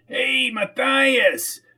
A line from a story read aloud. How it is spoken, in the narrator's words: yelled Arnie Dewars from the back of his truck